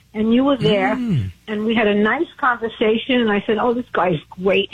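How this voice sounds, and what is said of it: Brooklyn accent. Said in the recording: “Sounds like you're from Brooklyn.”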